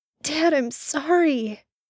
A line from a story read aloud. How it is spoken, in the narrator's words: Sam burst out desperately